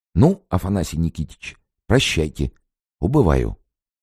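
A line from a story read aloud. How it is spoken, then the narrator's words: Whisper. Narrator (Russian): Анечкин, шепотом сказал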